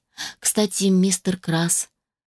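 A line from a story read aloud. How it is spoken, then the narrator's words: Slightly guilty tone. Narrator (Russian): заговорила она немного виноватым тоном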